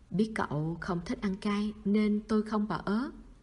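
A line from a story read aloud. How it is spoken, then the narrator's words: Soft gentle speech. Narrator (Vietnamese): Vương Thụ Dân nhỏ nhẹ nói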